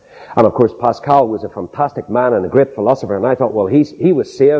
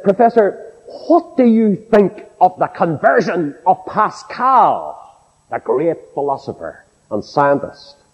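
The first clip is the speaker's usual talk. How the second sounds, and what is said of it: Put-on accent. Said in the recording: “with my best accent”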